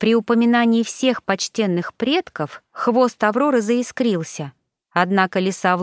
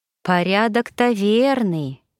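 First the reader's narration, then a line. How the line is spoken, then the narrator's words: Sighing fox. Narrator (Russian): вздохнула лиса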